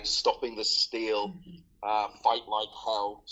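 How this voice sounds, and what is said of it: Put-on American accent. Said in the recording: “sorry if that was my American accent”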